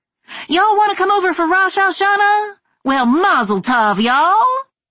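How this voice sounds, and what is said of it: Exaggerated Southern Charleston accent. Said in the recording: “I turned up the accent ... with the Charleston accent turned on high”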